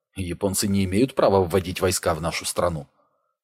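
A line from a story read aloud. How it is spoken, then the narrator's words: Low undertone. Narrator (Russian): он вполголоса сказал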